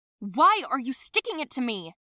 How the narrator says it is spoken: yelled at her

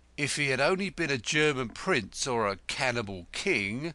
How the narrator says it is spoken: said Crowl bitterly

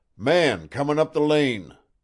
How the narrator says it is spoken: the watcher at the window shouted

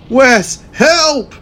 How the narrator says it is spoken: cried the Pink Ranger

